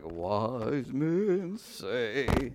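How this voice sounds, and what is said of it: Elvis impersonation singing. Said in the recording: “Was that a good Elvis impersonation?”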